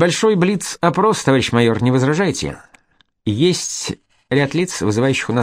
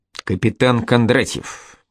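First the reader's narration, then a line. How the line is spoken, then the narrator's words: Mutter. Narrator (Russian): пробормотал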